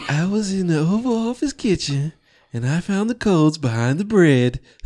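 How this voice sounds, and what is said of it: Imitates another person's voice. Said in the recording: “Why'd you do the voice? ... Because I like doing that voice.”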